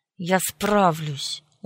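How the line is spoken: Stubborn, through teeth. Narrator (Russian): упрямо процедил

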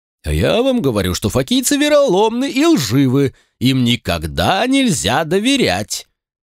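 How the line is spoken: Loud, insistent man. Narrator (Russian): громко твердил пузатый лысый мужчина

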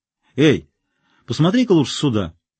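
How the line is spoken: Shout. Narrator (Russian): крикнул Эванс

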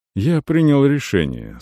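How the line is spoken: Soft. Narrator (Russian): сказал Арон мягко

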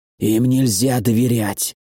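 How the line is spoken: Hoarse wheeze. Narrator (Russian): прохрипел другой

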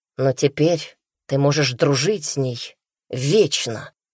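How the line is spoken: Rude joking. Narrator (Russian): грубо пошутил

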